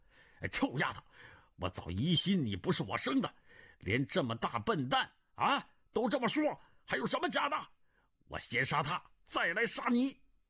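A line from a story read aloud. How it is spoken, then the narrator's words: Furious scolding. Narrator (Chinese): 钟万愁怒火冲天骂道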